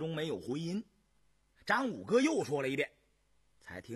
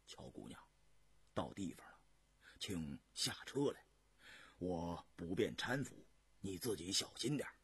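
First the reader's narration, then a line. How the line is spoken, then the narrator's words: Softly. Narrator (Chinese): 轻声说道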